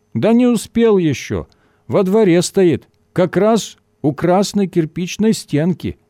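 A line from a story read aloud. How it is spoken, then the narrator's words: Muffled reply, sentry. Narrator (Russian): глухо ответил часовой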